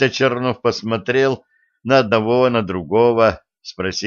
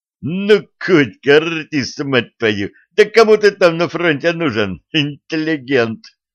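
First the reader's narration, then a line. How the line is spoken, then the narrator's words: Young man laughing. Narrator (Russian): рассмеялся молодой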